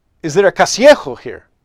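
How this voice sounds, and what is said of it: Exaggerated Spanish accent. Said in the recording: “in my richest, best Spanish accent”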